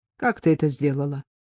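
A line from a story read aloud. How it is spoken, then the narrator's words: Calm, sighing. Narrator (Russian): Мария вздохнула и спокойно сказала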